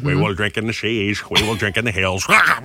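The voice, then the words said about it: Winston Churchill impression. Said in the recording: “does an impression of Winston Churchill ... That's a pretty good Winston Churchill impression”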